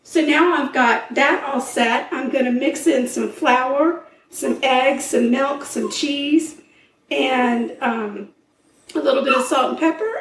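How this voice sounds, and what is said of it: Hoarse, partly lost voice. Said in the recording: “excuse my voice. ... sneezed 2 times, and lost half my voice”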